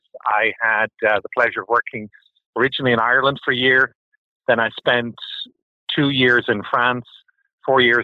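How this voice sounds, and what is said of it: Non-Kentucky foreign accent. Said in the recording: “As you can tell from my accent, I am not from Kentucky”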